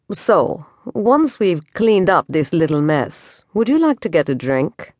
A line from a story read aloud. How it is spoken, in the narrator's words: Cade asked Pandora in his smoothest voice